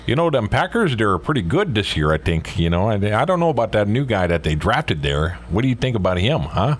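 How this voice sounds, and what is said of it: Wisconsin / Canadian accent. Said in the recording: “we love doing our Canadian accents... I can do their accent because it's the same as Wisconsin... that's my Wisconsin thing. It's very Canadian-like.”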